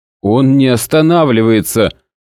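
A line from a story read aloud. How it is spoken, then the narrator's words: Loud. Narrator (Russian): громко сказал Костлявый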